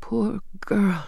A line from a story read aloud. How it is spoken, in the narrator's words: she whispered